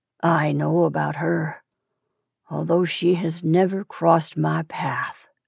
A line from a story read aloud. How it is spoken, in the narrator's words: he said softly